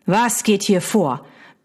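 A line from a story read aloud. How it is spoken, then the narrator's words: Barking. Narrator (German): bellte die Stimme seines Cousins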